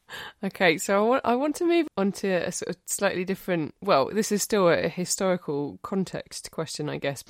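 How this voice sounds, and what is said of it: Essex English accent. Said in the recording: “I could hear your accent and I thought, she's from Essex”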